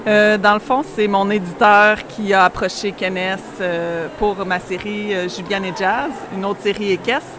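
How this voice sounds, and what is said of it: Québécois French accent. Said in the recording (French): “vous avez un petit accent qui nous vient de loin ... du Québec, directement.”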